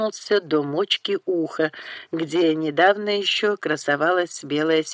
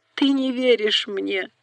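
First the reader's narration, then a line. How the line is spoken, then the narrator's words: Sobbing. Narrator (Russian): зарыдала Бет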